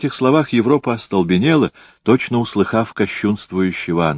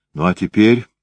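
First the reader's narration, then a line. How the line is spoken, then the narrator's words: Trembling voice. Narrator (Russian): продолжала она дрогнувшим голосом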